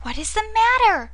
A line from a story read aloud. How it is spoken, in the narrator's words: cried Lise, in a tone of real anxiety